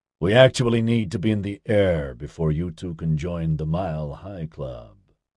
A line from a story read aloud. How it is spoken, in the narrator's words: Oscar told them dryly